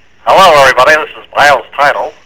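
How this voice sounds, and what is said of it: Nasal put-on crazy voice. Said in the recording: “What do you got in your nose? ... in a crazy voice ... crazy voiced”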